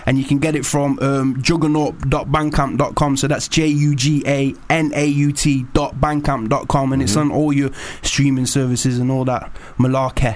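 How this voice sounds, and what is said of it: Nottingham English accent. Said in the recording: “I need to hear more of this Knots accent.”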